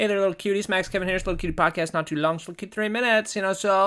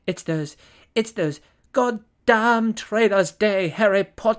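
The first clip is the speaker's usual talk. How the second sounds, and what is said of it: Poor attempt at British accent. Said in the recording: “Or maybe I should do that with a British accent... I can't even do a British accent. I suck at that.”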